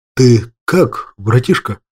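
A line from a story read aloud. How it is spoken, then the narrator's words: Nervous, slightly frightened voice. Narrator (Russian): Нервно поинтересовался у меня снап слегка испуганным голосом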